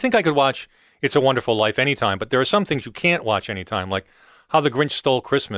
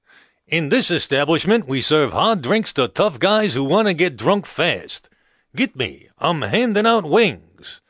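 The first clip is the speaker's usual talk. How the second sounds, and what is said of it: Imitates another person's voice. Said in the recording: “my modest impression of Sheldon Leonard at Martini's Bar”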